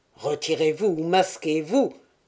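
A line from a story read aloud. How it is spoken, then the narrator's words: Low voice. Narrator (French): dit Malartic d'une voix basse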